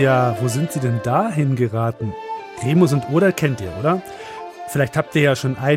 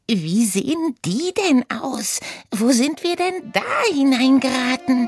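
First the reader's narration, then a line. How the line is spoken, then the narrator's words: Squealing. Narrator (German): quiekte Oda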